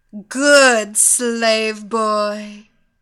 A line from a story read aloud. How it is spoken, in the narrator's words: the hypnotist shouted